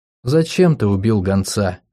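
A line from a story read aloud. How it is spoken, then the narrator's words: Gentle. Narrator (Russian): ласково спросила Фергия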